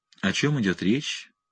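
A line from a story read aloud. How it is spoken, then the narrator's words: Gentle melodic question. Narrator (Russian): спросила Фьямелла нежным мелодичным голосом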